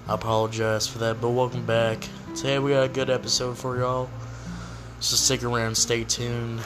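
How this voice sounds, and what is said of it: Weak, worn-out voice. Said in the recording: “My voice is a little dead. I'm recovering from being sick ... I'm going to sound a little dead today”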